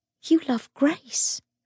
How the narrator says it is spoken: Cordelia whispered

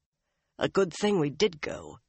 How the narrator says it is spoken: he told her instead in a tight voice

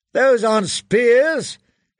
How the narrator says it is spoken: he shouted

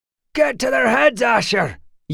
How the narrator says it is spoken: yelled Matt

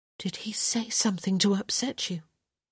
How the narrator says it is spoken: she added, more softly

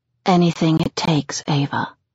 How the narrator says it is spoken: he whispers

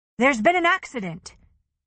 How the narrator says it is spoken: she said, raising her voice in what she hoped was a firm, authoritative manner

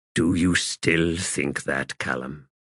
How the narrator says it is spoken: In a soft voice, he asked

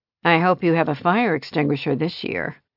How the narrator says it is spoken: Annie said dryly

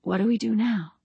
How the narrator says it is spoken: Her whispered reply

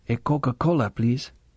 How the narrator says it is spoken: She said quietly

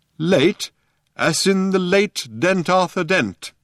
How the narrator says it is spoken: said the old man sternly

